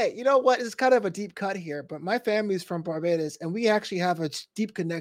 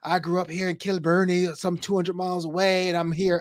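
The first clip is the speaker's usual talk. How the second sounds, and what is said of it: Respectful put-on Scottish accent. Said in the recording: “your impression. ... I just like how you do it. ... You're not groundskeeper willying it, so it's good. You're, you're being very respectful.”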